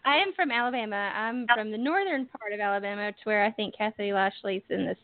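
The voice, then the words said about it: Southern US accent. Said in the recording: “you definitely have an accent ... Yeah, definitely have the southern accent.”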